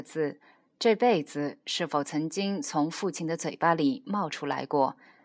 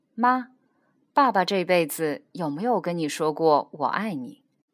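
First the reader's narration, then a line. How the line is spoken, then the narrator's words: Joking, tentative question. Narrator (Chinese): 以玩笑的方式试探着问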